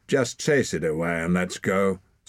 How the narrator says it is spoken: said Hord irritably

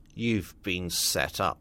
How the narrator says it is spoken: grunted Shaw

